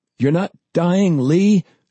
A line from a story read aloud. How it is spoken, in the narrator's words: John cried